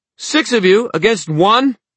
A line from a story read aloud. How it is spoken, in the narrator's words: Emma shouted, the wind whipping her hair